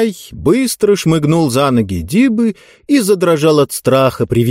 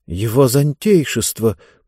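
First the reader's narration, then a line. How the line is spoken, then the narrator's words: Astonished mutter. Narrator (Russian): пробормотал изумленный Хэмми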